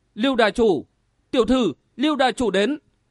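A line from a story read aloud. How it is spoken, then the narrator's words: Sudden cry. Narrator (Vietnamese): Tiểu Lan chợt kêu lên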